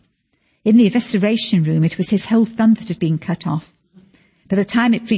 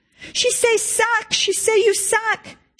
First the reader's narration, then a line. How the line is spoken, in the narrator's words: wailing